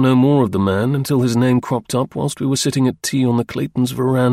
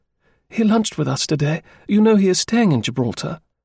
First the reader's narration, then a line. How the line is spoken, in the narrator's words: Clayton said with some pride